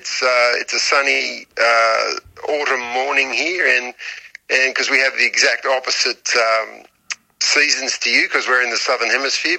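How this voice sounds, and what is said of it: Australian accent. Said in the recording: “As people can tell by my accent, I'm Australian”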